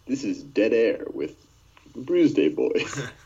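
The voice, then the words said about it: Put-on radio announcer voice. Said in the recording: “Did you put on your radio voice? I did exactly do that. ... your radio voice? ... my radio voice”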